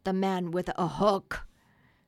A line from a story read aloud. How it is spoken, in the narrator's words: they snarled